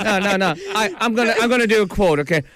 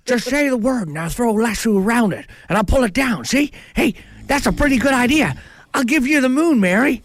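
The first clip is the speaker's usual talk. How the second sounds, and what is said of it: Imitates a classic film actor's voice. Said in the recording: “That's my impersonation. ... it's very good ... It's Jimmy Stewart.”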